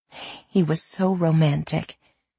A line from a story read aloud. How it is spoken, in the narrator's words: she sighed